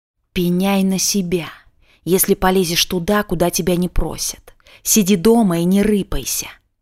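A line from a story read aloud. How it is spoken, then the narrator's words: Angry hiss. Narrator (Russian): чье-то злое шипение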